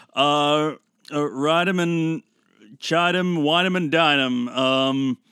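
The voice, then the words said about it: Impression of a Brendan Fraser character. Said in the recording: “that is my impression of his character ... I love gay Brendan Fraser”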